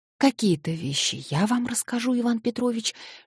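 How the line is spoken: Hurried whisper. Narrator (Russian): шептала она наскоро

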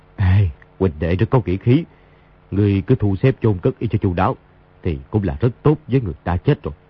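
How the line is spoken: Sighing. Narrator (Vietnamese): Đa Long thở dài nói

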